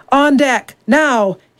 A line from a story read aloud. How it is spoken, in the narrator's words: bellowed